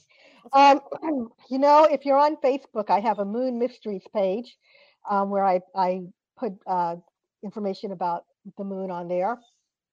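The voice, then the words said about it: Hoarse, strained, weakened voice. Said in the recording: “Pardon me, I've lost my voice.”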